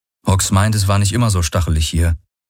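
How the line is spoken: Plain. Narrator (German): sagte Garlen

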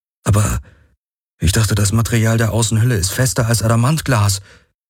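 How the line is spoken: Croaking. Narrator (German): krächzte Garland

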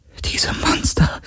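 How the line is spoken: Whisper. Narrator (German): flüsterte

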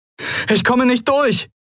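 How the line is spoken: Called out. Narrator (German): rief Kai

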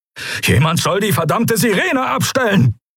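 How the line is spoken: Barking shout. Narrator (German): bellte Telios

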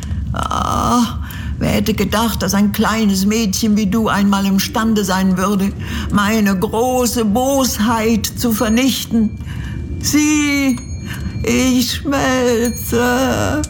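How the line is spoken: Witch's anguished whimper. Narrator (German): wimmerte die Hexe unter Qualen

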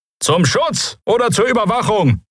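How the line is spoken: Call out. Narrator (German): rief jemand

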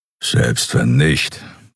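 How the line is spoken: Grumbling. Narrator (German): brummte er

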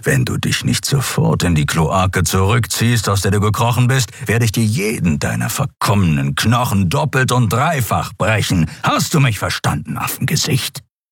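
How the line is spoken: Warrior's growl. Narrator (German): knurrte das Krieger

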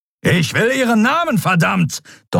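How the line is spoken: Thundering. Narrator (German): donnerte Telios

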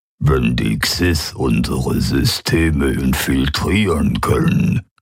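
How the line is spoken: Grumbling alien voice. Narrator (German): brummte der Vertreter der Quoira mit seinen Mundmembranen

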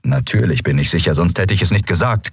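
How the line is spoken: Growling. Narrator (German): Knurren

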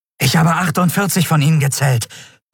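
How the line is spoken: Breathless report. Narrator (German): berichtete der Jadi atemlos

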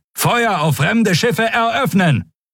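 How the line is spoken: Shouted command. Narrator (German): rief er

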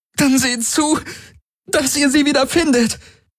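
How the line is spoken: Pained cry. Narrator (German): rief Ylana unter Schmerzen

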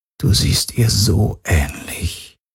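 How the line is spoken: Quiet. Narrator (German): sagte leise

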